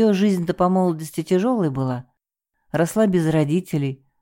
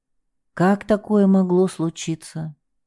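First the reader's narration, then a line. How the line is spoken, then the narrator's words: Heavy sigh, repeating. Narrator (Russian): Лидия Михайловна тяжело вздохнула и повторила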